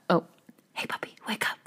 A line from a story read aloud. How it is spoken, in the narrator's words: whispered Youngsun